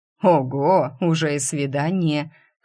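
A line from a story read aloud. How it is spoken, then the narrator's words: Chuckle. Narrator (Russian): хохотнул Смуглый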